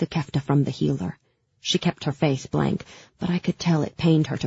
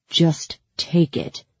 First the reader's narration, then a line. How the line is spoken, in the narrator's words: Ivan growled